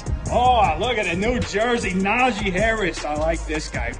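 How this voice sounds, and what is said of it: Exaggerated Pittsburgh accent. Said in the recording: “He did a Pittsburgh impression ... So he did this Pittsburgh accent.”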